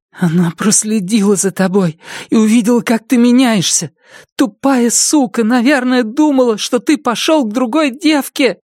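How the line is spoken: Hollow, desperate voice. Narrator (Russian): Глухим, отчаянным голосом она сказала

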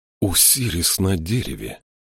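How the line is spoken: Breathed out. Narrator (Russian): выдохнул Джошуа

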